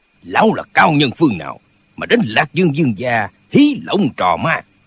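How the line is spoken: Angry shout. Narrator (Vietnamese): Dương Trọng Cường quát lên

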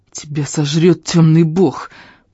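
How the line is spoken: Hissed through teeth. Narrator (Russian): прошипел, процедил Фари

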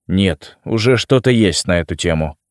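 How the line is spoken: Plain. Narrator (Russian): ответили мы

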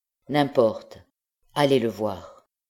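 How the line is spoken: Plain. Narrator (French): répondit l'armateur

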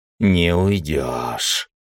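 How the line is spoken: Through gritted teeth. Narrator (Russian): процедила Мартина

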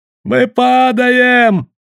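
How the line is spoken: Shouted in foreign dialect. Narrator (Russian): прокричал на восточном варварском диалекте кто-то из вертунов

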